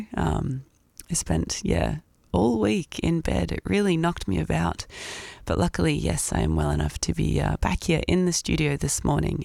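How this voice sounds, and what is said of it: Croaky, sick-sounding voice. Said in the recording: “you might be able to hear in my voice, I'm a little bit sick ... do bear with the croak on me this morning”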